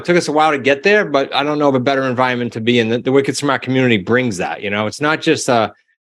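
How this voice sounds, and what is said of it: Regional accent dropping R sounds. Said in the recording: “It's not wicked smart. It's wicked smart. You know, I can't pronounce it with your accent. ... Just get rid of the R and add an H”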